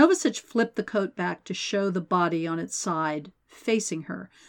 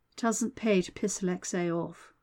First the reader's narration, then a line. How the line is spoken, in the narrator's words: Mai murmured